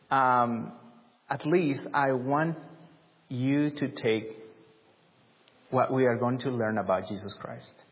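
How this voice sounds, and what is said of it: Speaks with an unusual accent. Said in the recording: “preacher with a weird accent”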